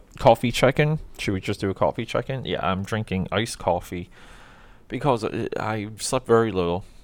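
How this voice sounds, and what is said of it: Speaking in a very low voice. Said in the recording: “I'm talking in a very low voice right now”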